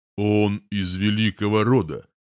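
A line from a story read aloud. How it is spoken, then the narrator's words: Low voice. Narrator (Russian): низким голосом говорит один из его припевал, пухлый, лысый парень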